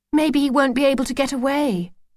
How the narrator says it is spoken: said Lucy wistfully

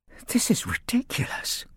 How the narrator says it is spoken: whispered Arthur

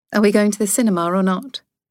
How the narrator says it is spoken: she asked

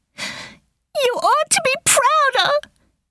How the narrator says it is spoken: she yelled in her passion and grief

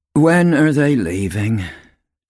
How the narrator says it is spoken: Tum Tum asked miserably

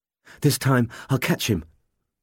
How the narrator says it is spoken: Gaius panted to himself as he ran

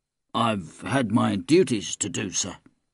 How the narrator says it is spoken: he mumbled

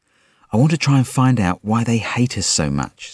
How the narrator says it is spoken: said Limpy

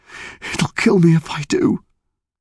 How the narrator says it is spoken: he gasped

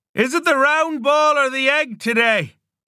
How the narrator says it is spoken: Owen laughed

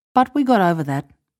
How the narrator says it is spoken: added calmly

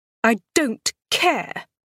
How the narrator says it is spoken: snarled

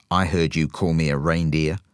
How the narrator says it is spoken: the dog growled

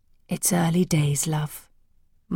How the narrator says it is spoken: my dad said soothingly

